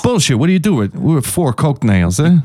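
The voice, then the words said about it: Put-on accent that slips. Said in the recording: “My accent just fell apart on that one.”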